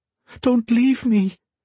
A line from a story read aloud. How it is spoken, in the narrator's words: she pleaded